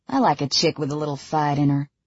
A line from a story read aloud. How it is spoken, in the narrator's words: he drawls